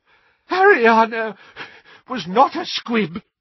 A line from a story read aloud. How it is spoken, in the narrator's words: wheezed Doge